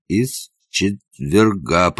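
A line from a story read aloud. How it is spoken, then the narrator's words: Moaning. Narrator (Russian): простонал он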